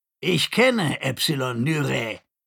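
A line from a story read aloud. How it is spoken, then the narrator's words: Scratchy voice. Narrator (German): sagte er mit kratziger Stimme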